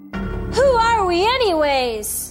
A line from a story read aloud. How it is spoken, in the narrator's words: She asked in a strong voice